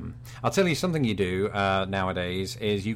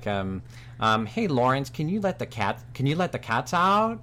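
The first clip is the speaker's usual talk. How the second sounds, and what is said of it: Question with rising pitch at end. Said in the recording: “you go up at the end of sentences ... you don't do it in a British accent, but you do it in a, you know, your own accent ... Now I sound like an idiot.”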